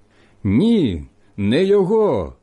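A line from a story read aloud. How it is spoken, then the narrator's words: Group shouting again. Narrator (Ukrainian): знову закричали ті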